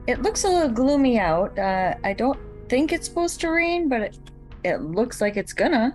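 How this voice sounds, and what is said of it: Minnesota accent. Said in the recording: “I could listen to your Minnesota accent all day long ... You can tell she lives in Minnesota”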